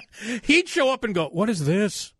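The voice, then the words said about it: Put-on Liverpool accent. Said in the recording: “That was my liver. That was my liver Pudlian accent.”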